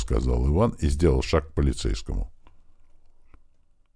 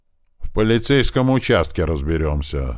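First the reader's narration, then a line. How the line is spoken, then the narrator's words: Angry. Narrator (Russian): зло сказал толстяк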